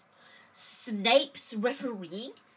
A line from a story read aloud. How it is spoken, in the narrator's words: he spluttered through a mouthful of mud